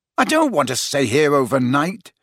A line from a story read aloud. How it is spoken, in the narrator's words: said Harry angrily